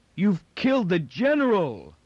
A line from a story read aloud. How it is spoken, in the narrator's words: With a wild, incoherent yell